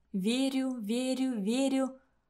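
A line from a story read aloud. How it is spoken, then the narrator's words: Muttering to herself. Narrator (Russian): я начала бормотать себе под нос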